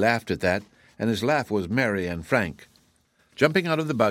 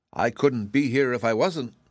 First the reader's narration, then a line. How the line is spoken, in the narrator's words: she said